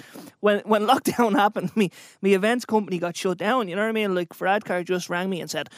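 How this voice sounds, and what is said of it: Usual voice. Nothing is said of it.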